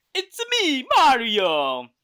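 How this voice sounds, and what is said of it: Italian-accented cartoon character voice. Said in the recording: “with an Italian accent ... That was basically Mario's accent or voice”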